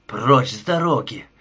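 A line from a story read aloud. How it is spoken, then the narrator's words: Desperate growl. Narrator (Russian): в отчаянии зарычал Кен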